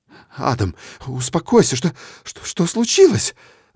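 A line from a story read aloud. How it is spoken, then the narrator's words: Trembling voice question. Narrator (Russian): Дрожащим голосом спрашивает Беатрис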